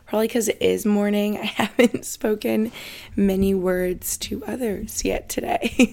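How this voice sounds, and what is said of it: Slightly hoarse morning voice. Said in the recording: “My voice may sound a little like morning voice right now or a little hoarse”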